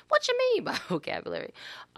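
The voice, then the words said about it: Suddenly high-pitched voice. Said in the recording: “I don't know why my voice just got that high.”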